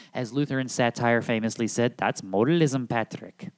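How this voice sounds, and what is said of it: Weak put-on Irish accent. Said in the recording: “that's as good as it gets for the Irish accent there”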